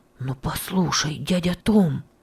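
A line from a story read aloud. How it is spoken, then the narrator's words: Mysterious voice. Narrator (Russian): сказал он таинственным голосом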